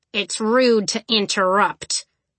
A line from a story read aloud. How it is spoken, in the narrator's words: she growled